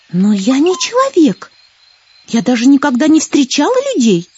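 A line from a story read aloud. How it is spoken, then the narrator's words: Exclaimed. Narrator (Russian): воскликнула Злата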